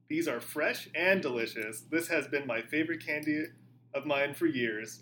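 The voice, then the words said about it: Strong Houston Texan drawl. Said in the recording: “My drawl is... this wild Houston accent.”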